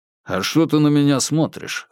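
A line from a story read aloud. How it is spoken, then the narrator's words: Dismissive snort. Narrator (Russian): хмыкнул тот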